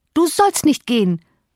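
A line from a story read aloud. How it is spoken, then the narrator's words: Energetic call. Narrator (German): rief sie energisch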